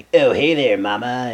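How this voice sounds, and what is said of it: Old-fashioned flirty guy voice. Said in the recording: “Is that your period impression?”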